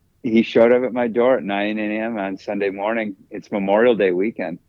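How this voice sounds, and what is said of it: Usual voice. Nothing is said of it.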